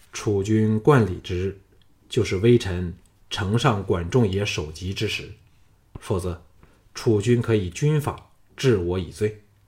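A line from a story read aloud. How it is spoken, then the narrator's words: Flat, suppressing joy. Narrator (Chinese): 项少龙压下心中的狂喜，淡淡的说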